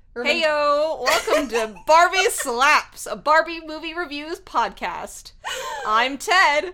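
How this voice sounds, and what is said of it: Exaggerated podcast host voice. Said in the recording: “I hate your podcast voice.”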